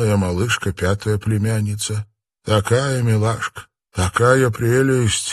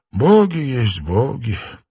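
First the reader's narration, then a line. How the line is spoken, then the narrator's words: Weary echoing mumble. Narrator (Russian): устало пробормотал он, повторив, как эхо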